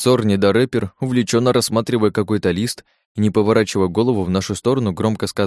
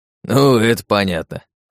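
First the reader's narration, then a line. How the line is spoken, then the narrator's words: Chuckling laugh. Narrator (Russian): хохотнул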